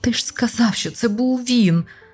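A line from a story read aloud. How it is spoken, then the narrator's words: Groan. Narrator (Ukrainian): простогнав Азарафаїл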